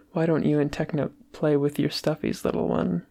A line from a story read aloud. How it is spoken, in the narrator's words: Tommy giggled excitedly